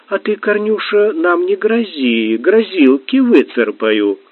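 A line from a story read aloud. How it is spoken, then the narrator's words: Sing-song little voice. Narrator (Russian): певучим голоском ответила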